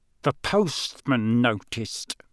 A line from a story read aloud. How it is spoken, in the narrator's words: he said through gritted teeth